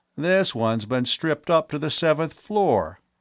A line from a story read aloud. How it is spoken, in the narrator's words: Latimer exclaimed